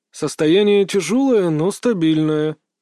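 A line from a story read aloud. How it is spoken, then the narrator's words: Tired elderly man, suppressed irritation. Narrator (Russian): устало отвечал на вопросы отца пожилой японец, с трудом скрывая раздражение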